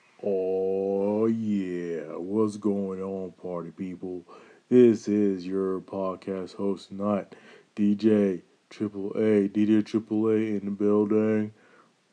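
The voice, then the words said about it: Late-night radio DJ voice. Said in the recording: “That's my late night DJ voice.”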